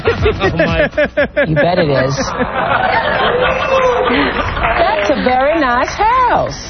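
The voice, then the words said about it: Fake Southern accent. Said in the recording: “That's Oprah talking fake Southern.”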